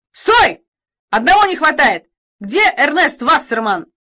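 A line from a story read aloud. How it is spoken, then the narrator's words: Sudden shout. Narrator (Russian): Вдруг крикнул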